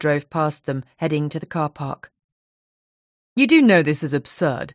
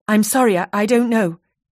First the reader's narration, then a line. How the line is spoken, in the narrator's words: stammered